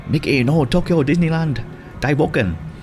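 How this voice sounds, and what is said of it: Poor attempt at Japanese accent. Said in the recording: “apologies to my Japanese listener, that was a terrible accent.”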